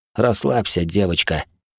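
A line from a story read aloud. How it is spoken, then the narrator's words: Husky exhale. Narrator (Russian): хрипло выдохнул я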